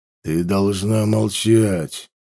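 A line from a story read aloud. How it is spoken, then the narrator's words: Hissed through teeth. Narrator (Russian): процедил шерих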